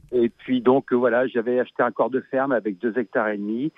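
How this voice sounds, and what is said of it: Slight regional French accent. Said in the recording (French): “j'ai un petit accent, mais je suis bien en Belgique”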